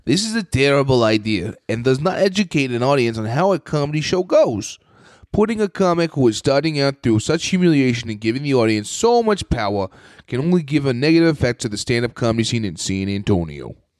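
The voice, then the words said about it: Reads aloud in a put-on accent. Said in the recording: “What was that accent?”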